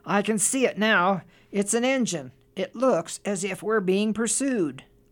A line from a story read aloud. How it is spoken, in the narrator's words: the engine driver called out